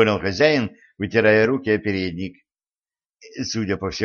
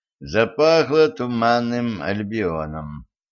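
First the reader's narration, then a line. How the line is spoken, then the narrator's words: Muttering. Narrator (Russian): пробормотал Денис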